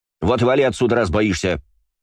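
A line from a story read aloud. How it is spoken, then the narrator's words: Growled. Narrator (Russian): рыкнула Валькирия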